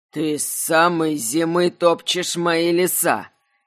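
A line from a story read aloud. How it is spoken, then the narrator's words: Displeased grumbling. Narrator (Russian): Недовольно заворчал он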